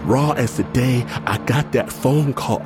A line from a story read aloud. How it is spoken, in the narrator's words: I wail